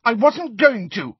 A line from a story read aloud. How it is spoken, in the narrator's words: she shouted